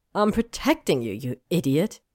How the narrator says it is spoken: Hermione snapped

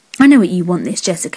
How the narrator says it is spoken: growled

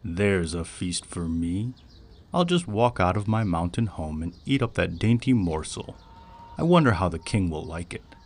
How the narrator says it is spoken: he chuckled and said to himself, for he was very happy

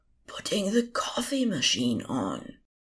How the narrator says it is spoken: Anathema's loud whisper

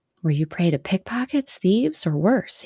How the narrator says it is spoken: he muttered, shuddering

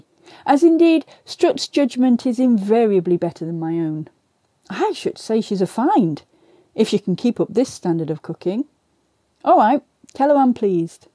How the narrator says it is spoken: I said hastily

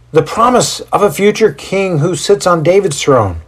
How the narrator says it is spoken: one of Lydia's brothers yells out

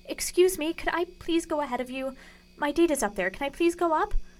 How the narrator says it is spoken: pleaded

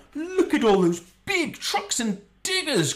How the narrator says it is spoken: Conrad exclaimed

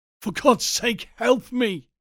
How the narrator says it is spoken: he panted

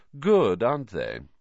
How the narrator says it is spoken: said Malfoy smoothly

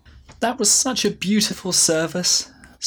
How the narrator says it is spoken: sobbed Faye

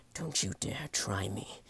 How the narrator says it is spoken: growled

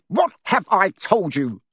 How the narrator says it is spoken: thundered his uncle, spraying spit over the table

